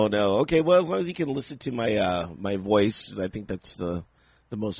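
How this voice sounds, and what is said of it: Usual voice. Nothing is said of it.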